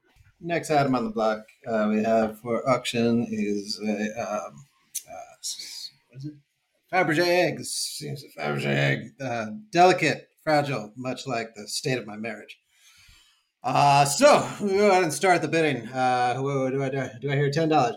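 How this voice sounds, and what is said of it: Auctioneer impression. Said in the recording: “your impression of an auctioneer haunted by relationship problems”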